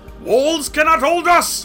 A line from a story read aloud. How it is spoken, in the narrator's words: roared his green head